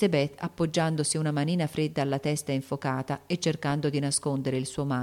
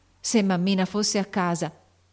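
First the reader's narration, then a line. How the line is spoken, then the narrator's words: Frightened exclamation. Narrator (Italian): esclamò Joe pensando con terrore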